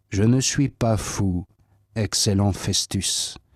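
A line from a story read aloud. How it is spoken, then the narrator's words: Plain reply. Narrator (French): répondit Paul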